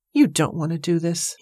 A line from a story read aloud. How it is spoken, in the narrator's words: he muttered under his breath